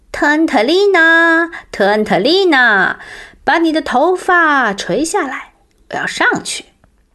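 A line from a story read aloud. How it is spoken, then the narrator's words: Loud call. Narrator (Chinese): 像平时一样大声叫道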